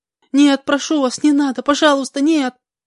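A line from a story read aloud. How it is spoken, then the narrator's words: Girl's shriek. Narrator (Russian): визжала девушка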